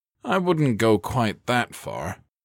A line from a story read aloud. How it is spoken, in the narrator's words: Kersey replied, chuckling